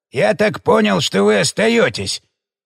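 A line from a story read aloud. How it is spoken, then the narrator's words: Angry bark, old man. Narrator (Russian): сердито рявкнул дед из синей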